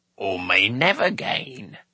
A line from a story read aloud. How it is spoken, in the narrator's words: croaked Orgoch